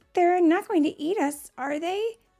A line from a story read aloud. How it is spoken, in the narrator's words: Natalie asked nervously